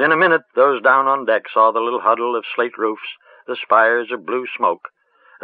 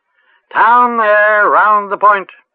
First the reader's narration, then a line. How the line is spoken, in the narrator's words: A sailor boy up in the dizzy, swaying world of the masts and sails and rigging overhead called out clear and sweet